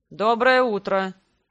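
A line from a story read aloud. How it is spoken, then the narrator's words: Gloomy, after a pause. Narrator (Russian): Довольно мрачно заговорил он после паузы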